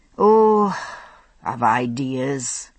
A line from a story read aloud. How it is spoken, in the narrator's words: he said, drawing back with a sigh